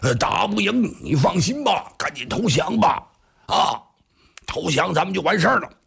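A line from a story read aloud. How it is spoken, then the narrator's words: Shouting. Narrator (Chinese): 黄盖还边喊呢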